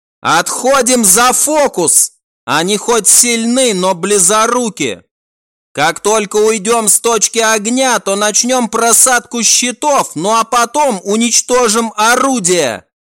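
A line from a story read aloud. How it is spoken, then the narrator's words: Shout. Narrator (Russian): прокричала Рен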